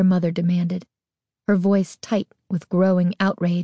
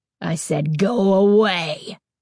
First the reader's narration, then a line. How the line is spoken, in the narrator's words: Carly Beth snarled in a voice so deep, so terrifying, that it frightened even her